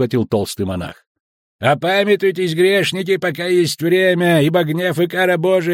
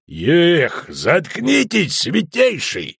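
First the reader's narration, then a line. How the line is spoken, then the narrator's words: Growling. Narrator (Russian): рыкнул Шелдон Скакс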